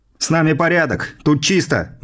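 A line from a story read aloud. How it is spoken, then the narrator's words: Shout. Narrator (Russian): выкрикнул я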